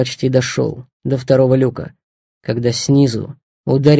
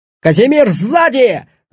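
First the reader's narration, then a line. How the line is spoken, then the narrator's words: Yelling. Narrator (Russian): заорал он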